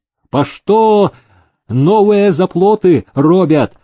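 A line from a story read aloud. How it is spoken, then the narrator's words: Booming shout from crowd. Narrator (Russian): выкрикнул из толпы зычный голос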